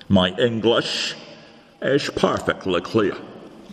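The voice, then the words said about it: Scottish accent. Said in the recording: “it's your accent ... Are you suggesting that I have got a Scottish accent? ... I fear you have, my lord.”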